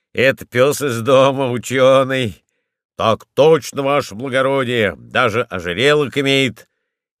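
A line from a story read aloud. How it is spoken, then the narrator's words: Barking. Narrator (Russian): рявкнул Денисов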